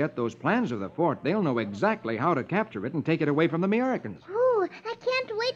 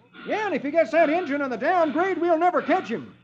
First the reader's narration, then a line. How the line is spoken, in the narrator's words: One of the posse exclaims